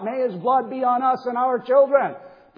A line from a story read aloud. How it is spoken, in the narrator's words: all the people of Israel who cried out